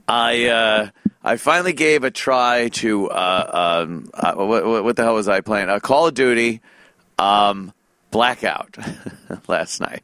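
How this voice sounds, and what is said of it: Scratchy voice. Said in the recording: “my voice is still scratchy”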